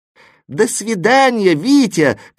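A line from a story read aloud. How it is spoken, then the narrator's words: Shouting after someone. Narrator (Russian): кричали вслед знаки препинания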